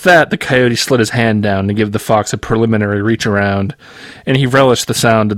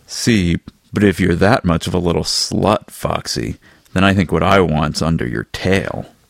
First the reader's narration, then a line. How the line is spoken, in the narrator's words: he said